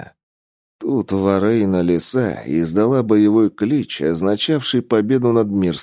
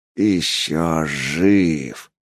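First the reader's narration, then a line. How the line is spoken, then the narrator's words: Monstrous growl. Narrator (Russian): прорычал красный кошмар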